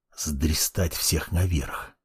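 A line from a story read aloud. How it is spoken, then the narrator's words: Whisper. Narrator (Russian): прошептал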